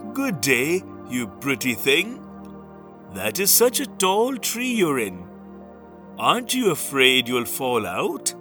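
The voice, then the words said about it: Sweet coaxing character voice. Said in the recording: “in his sweetest voice”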